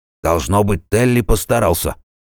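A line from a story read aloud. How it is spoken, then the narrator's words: Snort. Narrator (Russian): хмыкнул Рудольф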